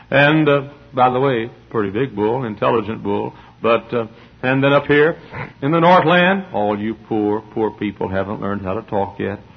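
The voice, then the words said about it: Southern American accent, snorting nasal voice. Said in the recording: “sinus trouble, and I snort like a bull half the time ... my southern accent”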